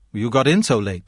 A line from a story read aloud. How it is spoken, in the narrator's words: said Kay